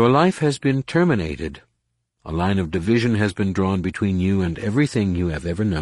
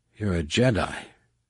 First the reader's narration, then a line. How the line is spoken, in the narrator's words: Jason murmured